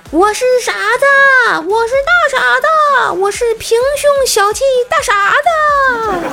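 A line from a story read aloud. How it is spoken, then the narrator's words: Man yelling, ringtone. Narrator (Chinese): 一阵怪异的手机铃声，是一个男人的呐喊声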